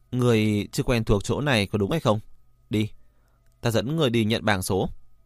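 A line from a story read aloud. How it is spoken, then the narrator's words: Sighing. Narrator (Vietnamese): Lãnh Thu Linh thở dài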